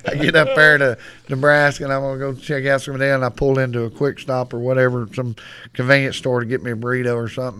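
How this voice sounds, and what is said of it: Texas accent. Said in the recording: “"Where are you from?" I said, "Texas." ... "Ooh, I like your accent. It's sexy."”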